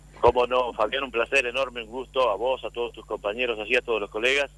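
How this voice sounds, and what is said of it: Polished radio announcer voice. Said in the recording (Spanish): “tiene una extraordinaria voz de locutor y un muy buen ritmo de radio”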